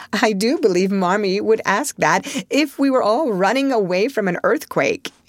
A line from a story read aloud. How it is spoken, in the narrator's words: cried Joe, adding with a laugh